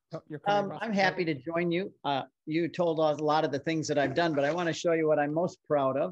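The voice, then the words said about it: American accent. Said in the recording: “I have a funny accent from being over here on the other side of the pond ... I have a funny accent.”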